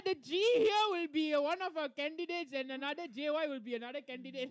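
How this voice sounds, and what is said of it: Strong Indian accent. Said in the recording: “Why your Indian accent come out? ... your Indian accent like stronger.”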